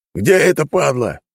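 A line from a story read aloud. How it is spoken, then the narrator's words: Barked shout. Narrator (Russian): рявкнул стражник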